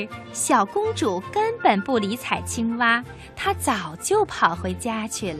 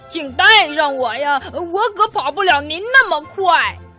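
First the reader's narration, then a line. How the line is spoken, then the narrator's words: Loud shout. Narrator (Chinese): 青蛙大声的叫道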